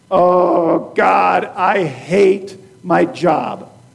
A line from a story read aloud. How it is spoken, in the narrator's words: We might groan